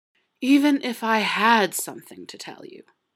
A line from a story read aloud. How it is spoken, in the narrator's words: slurred out when they were both near collapse and a little drunk